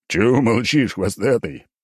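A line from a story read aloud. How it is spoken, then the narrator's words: Big man guffawing. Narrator (Russian): расхохотался здоровяк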